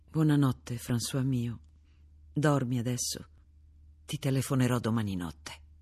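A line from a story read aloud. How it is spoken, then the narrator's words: Whispered. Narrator (Italian): Sussurrò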